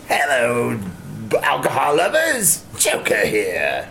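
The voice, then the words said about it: Good Joker cartoon villain voice. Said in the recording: “That was a very good. ... That was a pretty solid. ... That's the Mark Hamill nice. Joker.”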